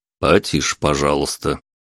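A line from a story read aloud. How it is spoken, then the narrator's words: Stern. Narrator (Russian): строго произнес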